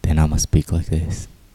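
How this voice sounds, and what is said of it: Put-on deep voice. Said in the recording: “Do you like my deep voice today? ... I'm exploring new voices.”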